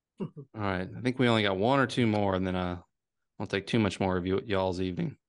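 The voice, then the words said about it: Southern Virginia accent. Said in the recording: “my Southern Virginia accent coming out”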